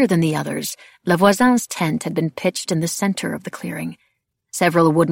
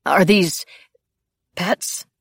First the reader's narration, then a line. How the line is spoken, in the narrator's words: he asked weakly